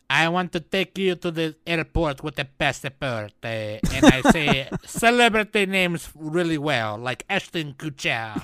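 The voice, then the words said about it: Mock French accent. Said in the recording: “that's my French impression”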